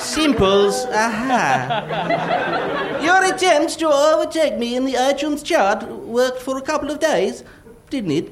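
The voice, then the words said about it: Put-on foreign accent, comic. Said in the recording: “It's not even the right accent.”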